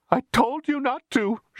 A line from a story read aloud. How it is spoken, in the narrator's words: she cried